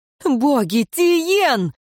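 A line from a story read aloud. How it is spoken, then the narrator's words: Sudden exclamation. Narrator (Russian): вдруг воскликнула Альвия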